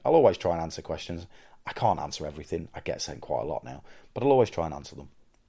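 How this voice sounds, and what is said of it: Hoarse, worn-out voice. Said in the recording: “You can tell I'm losing my voice now, by the way, because this has been a weekend of wrestling.”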